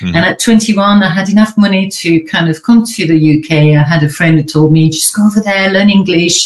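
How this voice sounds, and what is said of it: Slight French accent in English. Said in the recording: “I'm French originally. ... I've got a bit of an accent where everyone's thinking, where is she from exactly?”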